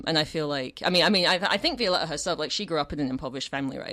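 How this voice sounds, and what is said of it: English accent. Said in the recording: “your English accent ... speaking in English with an English accent”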